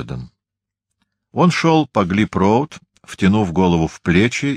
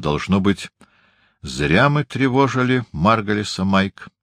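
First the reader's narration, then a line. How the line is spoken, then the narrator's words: Firm. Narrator (Russian): твердо сказал Уэксфорд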